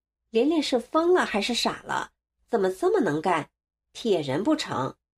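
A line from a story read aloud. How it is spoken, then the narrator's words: Plain. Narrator (Chinese): 连连说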